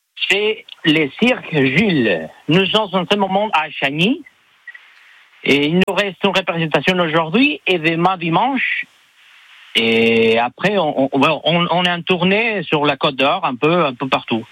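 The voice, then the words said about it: Strong Mexican accent in French. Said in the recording (French): “un accent qui est vraiment impressionnant ... vous êtes mexicain”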